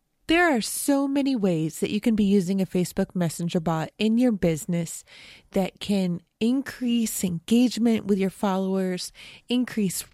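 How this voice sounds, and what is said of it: Hoarse voice from a cold. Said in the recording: “I'm getting a cold, which is why my voice might sound sort of hoarse”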